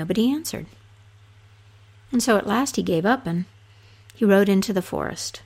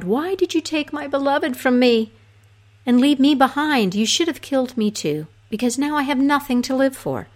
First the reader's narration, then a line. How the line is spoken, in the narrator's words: cried